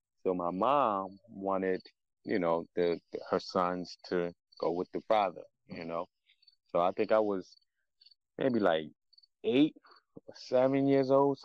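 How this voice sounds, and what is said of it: Mixed Ghanaian and Philly accent. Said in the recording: “That's why you have an accent ... everybody always tell me that I have an accent ... when you take a Ghanaian accent and a Philly accent, it sounds like you're from New York”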